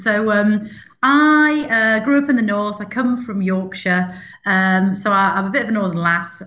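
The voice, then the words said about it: Northern English Yorkshire accent. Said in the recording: “I am a northerner, Jeanette. You probably can tell a little bit with my accent.”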